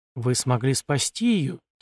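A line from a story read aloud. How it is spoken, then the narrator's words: Quiet speech. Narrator (Russian): тихо проговорил я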